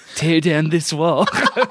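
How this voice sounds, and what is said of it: Mr. Burns impression sounding like Reagan. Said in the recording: “my Mr. Burns is a good Ronald Reagan”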